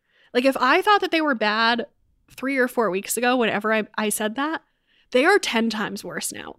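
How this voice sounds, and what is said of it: Stuffy, congested, raw-throated voice. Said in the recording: “My allergies are out of control ... I am stuffy and my throat is super raw. I was losing my voice yesterday.”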